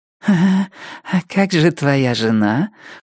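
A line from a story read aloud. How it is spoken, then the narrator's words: Cooing. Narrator (Russian): проворковала женщина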